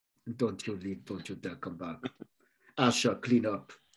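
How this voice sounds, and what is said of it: Put-on accent for a character. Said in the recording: “I don't know what this accent is I do for her”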